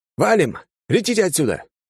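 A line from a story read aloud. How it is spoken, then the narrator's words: Shout. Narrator (Russian): крикнул пилотом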